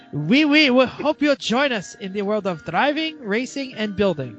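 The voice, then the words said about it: Poor attempt at French accent. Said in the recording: “I feel like I should put on the French accent. ... That's not even French. ... That's like Asian. That's terrible. ... I'm trying to do French.”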